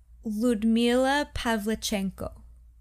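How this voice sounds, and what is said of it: Light attempted Ukrainian accent. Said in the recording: “Should I try to say it in a Ukrainian accent? ... I'm just not good at it. ... That was very light. ... You had a little extra oomph at the end this time.”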